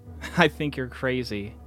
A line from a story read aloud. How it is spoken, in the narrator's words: laughed